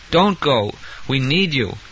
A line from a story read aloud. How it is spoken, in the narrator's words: he agreed, with a yawn, in a casual sounding way